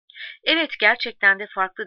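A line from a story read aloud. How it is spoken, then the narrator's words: Laughing. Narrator (Turkish): dedi Suçarita gülerek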